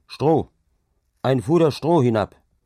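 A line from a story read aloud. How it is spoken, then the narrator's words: Calling up loudly. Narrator (German): rief er denen droben zu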